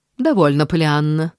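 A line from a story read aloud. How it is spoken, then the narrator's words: Cold declaration. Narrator (Russian): заявила она холодно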